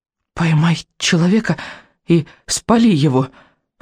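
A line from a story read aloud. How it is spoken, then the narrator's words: Hoarse rasp. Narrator (Russian): хрипел он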